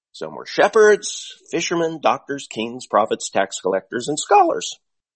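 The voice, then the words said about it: Voice rises in pitch. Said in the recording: “my voice went up”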